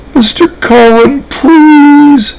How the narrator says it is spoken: a new voice, pleading

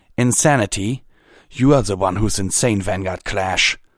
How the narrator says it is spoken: Coldhoof spat

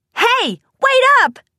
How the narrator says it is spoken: shouted, relieved that she had a direction to go

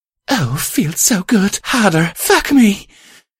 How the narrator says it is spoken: my love blurted amidst her panting and moaning

